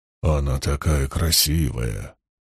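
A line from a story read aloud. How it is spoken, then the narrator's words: Muttered. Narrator (Russian): бормотал Лоэл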